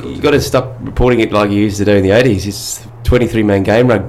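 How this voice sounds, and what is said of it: Imitates another person's voice. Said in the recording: “we're getting an impersonation here”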